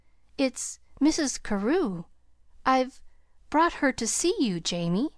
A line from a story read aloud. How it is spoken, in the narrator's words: introduced Pollyanna in a tremulous voice